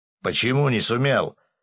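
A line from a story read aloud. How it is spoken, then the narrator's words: Barking. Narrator (Russian): рявкнул Семен Маркович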